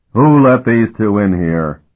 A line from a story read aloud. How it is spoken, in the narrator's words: he roared